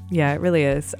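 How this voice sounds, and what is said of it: Sarcastic-sounding delivery. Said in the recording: “I sound like I'm being sarcastic. ... you sound like you're being incredibly sarcastic.”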